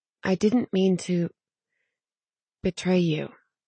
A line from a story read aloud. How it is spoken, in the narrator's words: she said softly